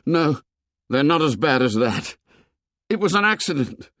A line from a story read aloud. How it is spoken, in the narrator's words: A spasm of terror set him shaking, and he cried aloud